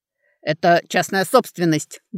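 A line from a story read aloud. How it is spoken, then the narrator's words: Rough, swearing. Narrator (Russian): грубо начал он, перемежая слова матерщиной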